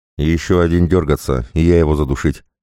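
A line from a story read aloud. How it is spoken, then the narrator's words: Flat even voice. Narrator (Russian): ровным голосом проговорил Томпсон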